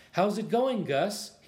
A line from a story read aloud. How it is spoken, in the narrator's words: asked